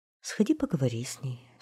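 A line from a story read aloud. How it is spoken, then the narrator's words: Queen sighing. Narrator (Russian): вздохнула королева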